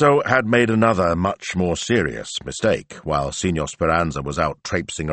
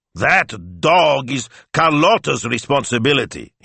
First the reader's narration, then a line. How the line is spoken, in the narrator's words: he thundered